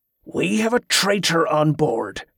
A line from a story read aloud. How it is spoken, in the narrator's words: Ambrose growled